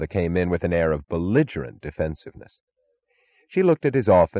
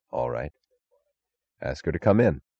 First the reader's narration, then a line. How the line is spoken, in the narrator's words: he said quietly